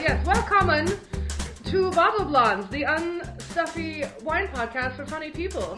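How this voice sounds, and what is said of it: Exaggerated mock German accent. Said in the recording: “offensive German accents”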